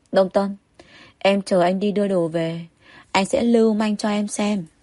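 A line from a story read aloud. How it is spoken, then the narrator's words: Soft, teasing, smiling. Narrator (Vietnamese): Tô Lịch cong môi cười, tiến đến bên tai Đông Tâm, nhỏ giọng nói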